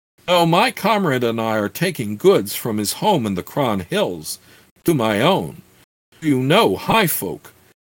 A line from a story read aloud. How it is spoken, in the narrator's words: Keek's laughter rang with a happy yet mocking note as he asked